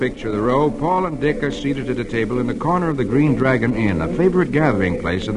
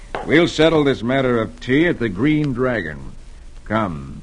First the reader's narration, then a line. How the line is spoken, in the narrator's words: Paul says grimly